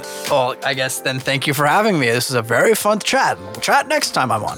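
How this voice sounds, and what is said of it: Put-on quirky character voice. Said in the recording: “I like that voice. What is that voice? ... Is that the Scandinavian accent? ... No, that is definitely not the Scandinavian accent. That originally what popped in my head was Strong Bad for some reason”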